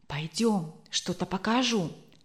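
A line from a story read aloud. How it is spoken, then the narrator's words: Conspiratorial tone. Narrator (Russian): заговорческим тоном сказал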